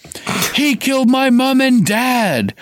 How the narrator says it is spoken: Harry roared

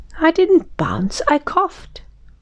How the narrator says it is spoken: said Tigger crossly

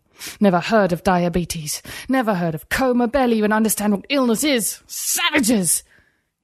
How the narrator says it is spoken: He spat the last word, angrier than he'd ever been

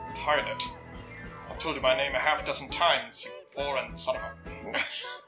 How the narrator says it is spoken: mutters under his breath

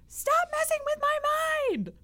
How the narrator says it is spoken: he's going to yell

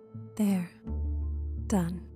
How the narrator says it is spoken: Cheryl says softly, a warm smile on her face

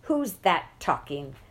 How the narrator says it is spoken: cried the matron, bursting in

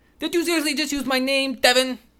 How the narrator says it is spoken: Sam snapped

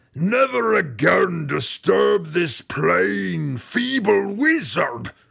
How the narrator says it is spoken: the Yawklaw roared

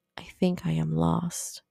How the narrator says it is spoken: quietly said

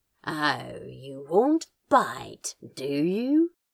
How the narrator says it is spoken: Crowley practically growled

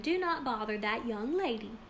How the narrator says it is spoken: her mother exclaimed

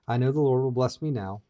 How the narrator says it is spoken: Micah said

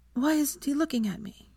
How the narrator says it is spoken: she whispered to Arthur

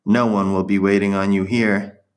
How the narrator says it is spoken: Marta's taunting voice saying

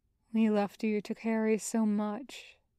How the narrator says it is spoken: his father murmurs, regretful

